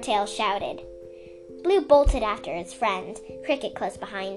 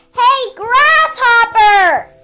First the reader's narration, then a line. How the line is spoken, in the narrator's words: Swordtail shouted